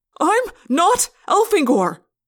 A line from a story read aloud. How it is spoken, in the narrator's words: I yelled